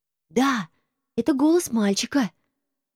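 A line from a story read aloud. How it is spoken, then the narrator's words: Passionate voice from below. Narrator (Russian): раздалось снизу таким страстным тоном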